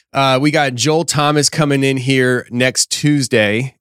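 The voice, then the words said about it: Voice fading, losing his voice. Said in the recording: “I'm already losing my voice ... I keep losing my voice. Every time I go live”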